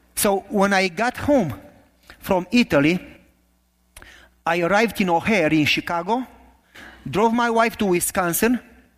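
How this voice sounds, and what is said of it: Romanian accent. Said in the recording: “my horrible accent. This is not a Canada accent, it's not Kentucky. This is Romanian accent, it's worse.”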